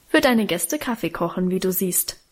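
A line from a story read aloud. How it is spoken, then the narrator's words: Plain answer. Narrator (German): antwortete Guste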